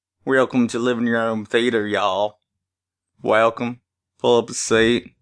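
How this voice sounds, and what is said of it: Put-on Southern US accent. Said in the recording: “You're like Forrest Gump. ... I'm trying to pull a southern accent, I'm just pulling Forrest Gump.”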